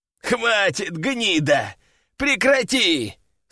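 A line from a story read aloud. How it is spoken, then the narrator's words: Exhausted groan. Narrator (Russian): стонал обессилевший бес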